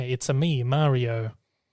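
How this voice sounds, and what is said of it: Mario-style Italian accent. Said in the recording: “It's not Mario without the accent. ... You do that well.”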